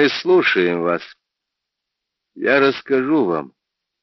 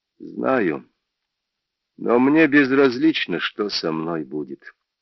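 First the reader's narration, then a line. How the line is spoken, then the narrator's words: Said calmly. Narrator (Russian): спокойно сказал Джордж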